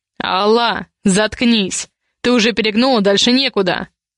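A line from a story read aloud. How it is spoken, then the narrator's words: Growled. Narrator (Russian): Снова рыкнул Ивар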